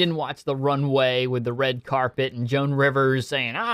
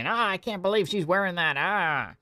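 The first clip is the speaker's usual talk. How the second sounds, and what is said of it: Imitates another person's voice. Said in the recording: “my best Joan Rivers impersonation.”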